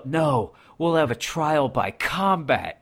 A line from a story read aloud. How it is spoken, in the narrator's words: the one guy yells out